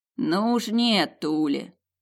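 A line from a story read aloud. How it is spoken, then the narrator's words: Lazy. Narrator (Russian): лениво Илон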